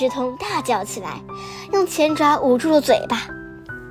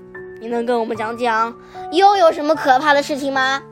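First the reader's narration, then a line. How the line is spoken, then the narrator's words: Plain. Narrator (Chinese): 上校问他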